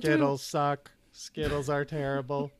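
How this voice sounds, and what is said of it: Robot voice. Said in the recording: “robot voice”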